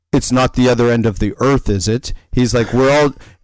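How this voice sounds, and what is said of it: Attempted foreign accent. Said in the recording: “I love your attempt to the accent”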